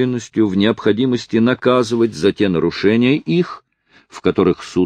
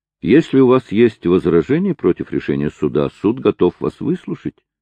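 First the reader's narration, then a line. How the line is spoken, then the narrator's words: Soft, gentle. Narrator (Russian): сказал Мармадюк Темпл мягко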